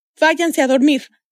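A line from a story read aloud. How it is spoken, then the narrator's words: Shouted. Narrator (Spanish): les gritó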